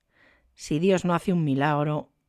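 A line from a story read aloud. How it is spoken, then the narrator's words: Murmured. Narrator (Spanish): murmuró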